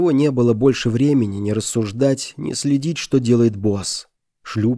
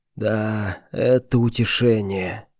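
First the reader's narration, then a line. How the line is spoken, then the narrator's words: Muttered. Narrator (Russian): пробормотал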